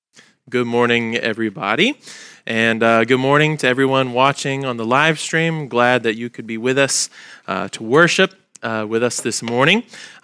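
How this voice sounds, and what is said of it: Nasal, congested voice. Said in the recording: “my voice sounds a little bit like I'm holding my nose. It's just allergy season”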